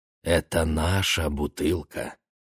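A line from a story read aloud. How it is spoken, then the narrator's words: Soft. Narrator (Russian): сказал мягко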